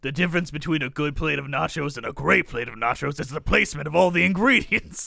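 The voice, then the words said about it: Imitates another person's voice. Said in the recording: “I need to do it in my Danny Trejo voice.”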